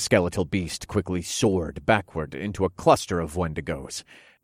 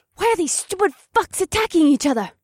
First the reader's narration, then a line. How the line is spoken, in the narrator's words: Akira cried out